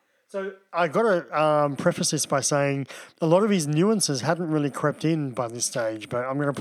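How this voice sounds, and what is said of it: Usual voice. Nothing is said of it.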